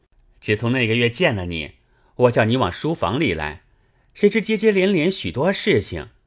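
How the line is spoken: Laughing. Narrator (Chinese): 宝玉笑道

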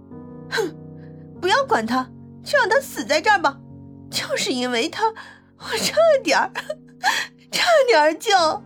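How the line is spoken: On the verge of tears. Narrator (Chinese): 张晶晶说着就又要哭了

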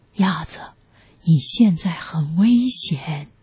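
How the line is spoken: Low voice. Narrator (Chinese): 大熊低声说

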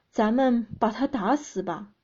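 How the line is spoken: Furious roar. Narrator (Chinese): 积攒多年的怒怒火燃烧起来，对男友大吼说

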